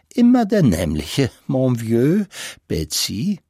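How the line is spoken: Giggling. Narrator (German): Madame Buddenbrook … kichernd … sagte

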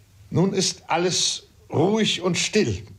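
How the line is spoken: Father calling out. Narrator (German): rief mein Vater

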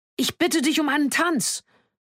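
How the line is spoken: Earnest scream. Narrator (German): Sie schrie es mit einer solchen Ernsthaftigkeit, dass jeder Widerspruch vergeblich schien

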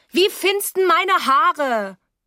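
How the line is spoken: Calling out. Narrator (German): rief

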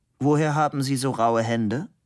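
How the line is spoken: Plain. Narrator (German): fragte Labude

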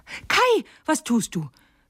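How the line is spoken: Little girl calling out. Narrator (German): rief das kleine Mädchen

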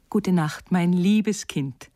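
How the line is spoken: Called out. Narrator (German): rief

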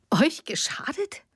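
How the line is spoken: Scornful laugh. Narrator (German): Silvia lachte höhnisch auf

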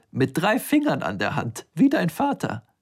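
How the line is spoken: Giggling. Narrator (German): sagte kichernd

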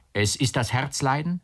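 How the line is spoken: Uncle calling again. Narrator (German): rief der Onkel wieder

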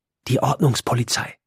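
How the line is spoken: Grinning whisper. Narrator (German): flüstert und grinst

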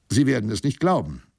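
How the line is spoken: Calling out. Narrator (German): rief ich ihm zu

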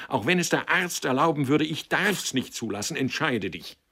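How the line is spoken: Called out. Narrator (German): rief sie

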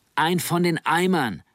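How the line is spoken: Called out. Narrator (German): rief Nanning

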